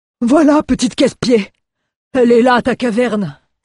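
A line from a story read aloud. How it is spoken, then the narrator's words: Exclamation. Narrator (French): s'écria Mjoln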